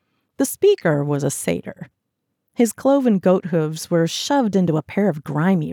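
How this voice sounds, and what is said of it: Usual voice. Nothing is said of it.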